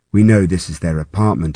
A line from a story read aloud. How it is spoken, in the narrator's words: he says